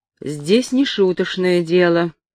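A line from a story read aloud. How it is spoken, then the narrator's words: Stern official tone. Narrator (Russian): сказал он сурово, официальным тоном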